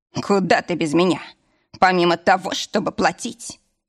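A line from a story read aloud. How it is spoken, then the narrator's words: Wry snort. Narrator (Russian): хмыкнул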